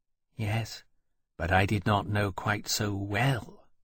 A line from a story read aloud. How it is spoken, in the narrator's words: Temeraire said in a small voice